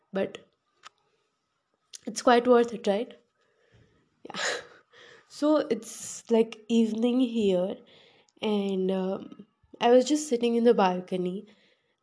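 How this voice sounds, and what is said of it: Husky morning voice. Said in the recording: “my voice has been transformed to my morning voice since a week ... I'm sneezing a lot of times in a day”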